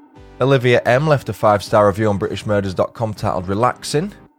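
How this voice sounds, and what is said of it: Yorkshire English accent. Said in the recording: “Also love the accent, as I'm also from Yorkshire”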